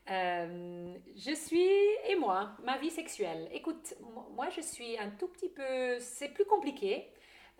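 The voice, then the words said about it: Slight Swiss German accent in French. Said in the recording (French): “j'ai un petit accent. C'est, je suis une Suisse allemande qui a vécu à l'étranger pendant longtemps”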